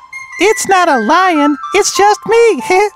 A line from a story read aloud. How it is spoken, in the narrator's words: said Julie, giggling